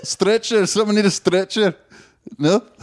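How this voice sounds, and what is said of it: Put-on Scottish accent. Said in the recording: “It's my Scottish accent ... It's one of the few words I can really say with this good Scottish accent.”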